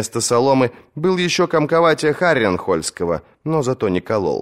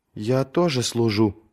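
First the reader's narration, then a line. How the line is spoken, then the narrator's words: Muttering. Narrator (Russian): пробормотала она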